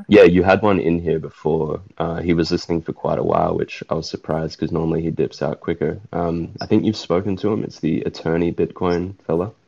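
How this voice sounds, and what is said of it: Speaks with a noticeable accent. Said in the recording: “Sorry, it's my accent.”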